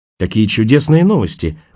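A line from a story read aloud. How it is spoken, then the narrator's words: Joyful exclamation. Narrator (Russian): радостно воскликнула Роэн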